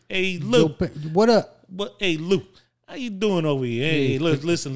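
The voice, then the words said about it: Put-on New York Italian accent. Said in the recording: “You want me to give you my New York Italian? ... They got the New York accent.”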